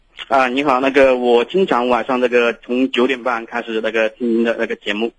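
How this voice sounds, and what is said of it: Southern Jiangsu-Zhejiang accented Mandarin. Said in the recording (Chinese): “您是南方口音吧？ ... 我一讲普通话的话，他们很多人都说我是那个江浙一带”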